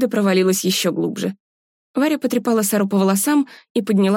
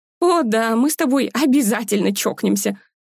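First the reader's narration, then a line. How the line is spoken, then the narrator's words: Laughing. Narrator (Russian): засмеялась сестра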